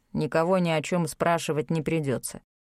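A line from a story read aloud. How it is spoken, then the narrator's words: Grim conclusion. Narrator (Russian): мрачно заключил худой некромант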